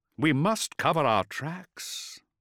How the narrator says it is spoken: Lorgar sighed

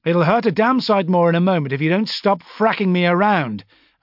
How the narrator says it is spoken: I shouted suddenly

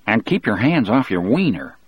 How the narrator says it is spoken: Harry muttered

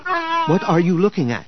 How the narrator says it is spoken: He asked eagerly

